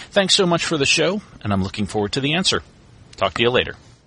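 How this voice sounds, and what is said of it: Great radio voice. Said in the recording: “great radio voice ... Really and truly got a great, great radio voice”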